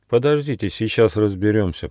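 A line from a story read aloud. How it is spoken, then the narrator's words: Mutter. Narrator (Russian): пробормотал Нюфа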